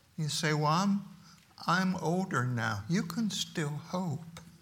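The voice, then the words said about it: Slowed, softened speaking voice. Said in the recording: “I'm slowing down and changing my voice just a little bit”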